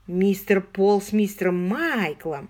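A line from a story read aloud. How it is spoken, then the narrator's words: Affectionate drawl. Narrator (Russian): ласково протянул кузен Александр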